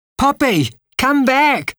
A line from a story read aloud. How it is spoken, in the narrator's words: Katie cried